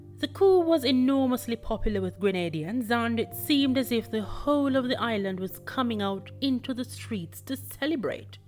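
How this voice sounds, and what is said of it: English accent. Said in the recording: “I apologize for my English accent.”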